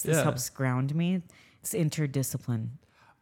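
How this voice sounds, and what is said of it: Soft, soothing spa-therapist voice. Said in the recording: “do my spa voice ... you put this voice on to talk to them ... it's very relaxing”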